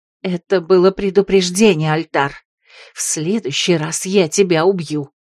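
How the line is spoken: Hissed through a scarf. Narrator (Russian): прошипела незнакомка, чье лицо и волосы закрывал черный платок

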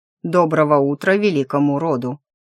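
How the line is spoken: Cold voice. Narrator (Russian): Таор холодно подал голос

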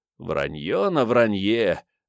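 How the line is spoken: Puzzled chuckle. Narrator (Russian): озадаченно хохотнул Вано

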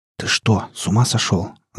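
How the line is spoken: Hissing. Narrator (Russian): зашипел на меня Гамегин

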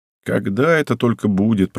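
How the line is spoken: Grumbling. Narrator (Russian): проворчал он

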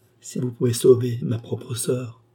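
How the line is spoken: Tender pleading voice. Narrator (French): supplia-t-elle, d'une voix à attendrir un tigre

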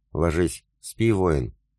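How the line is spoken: Tender, smiling. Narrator (Russian): ласково улыбнулась Алена

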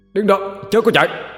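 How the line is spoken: Loud shout. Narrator (Vietnamese): Hà cũng vừa hay tới nơi mà quát lớn

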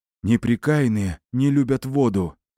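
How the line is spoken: Hoarse wheeze. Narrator (Russian): прохрипел сбоку Белар

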